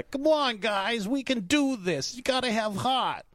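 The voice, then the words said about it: 1920s newsboy character voice. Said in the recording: “Why is ... a newspaper delivery boy from the 20s? ... in what, Schenectady? What accent was that?”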